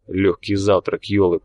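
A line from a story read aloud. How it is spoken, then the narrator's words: Grumbled. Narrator (Russian): пробурчал Тхар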